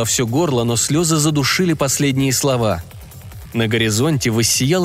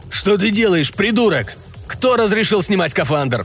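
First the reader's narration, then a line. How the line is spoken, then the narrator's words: Shouting. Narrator (Russian): кричал на меня Власов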